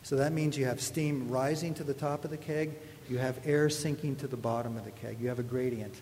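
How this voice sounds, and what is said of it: Canadian accent. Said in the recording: “there's my Canadian accent,”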